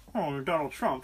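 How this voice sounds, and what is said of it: Muffled voice imitating another person. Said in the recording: “his impression of my brother Danny ... It sounds like he's talking through like three paste-on mustaches.”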